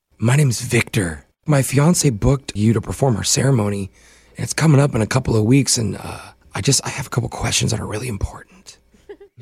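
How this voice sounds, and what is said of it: Whispering. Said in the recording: “you're whispering”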